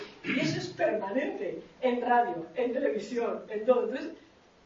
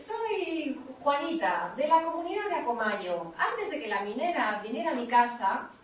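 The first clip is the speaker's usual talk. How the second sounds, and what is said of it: Imitated Indigenous woman's accent. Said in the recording (Spanish): “sale una señora con acento indígena”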